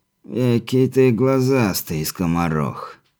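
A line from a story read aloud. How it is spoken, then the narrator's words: Hoarse cracked voice. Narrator (Russian): послышался из темноты спереди хриплый надтреснутый голос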